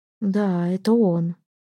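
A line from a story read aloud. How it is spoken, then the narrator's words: Quiet reply. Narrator (Russian): тихо ответила Альдона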